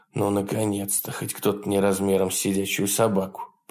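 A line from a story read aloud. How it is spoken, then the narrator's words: Relieved mutter. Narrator (Russian): пробормотал Джефф себе под нос с облегчением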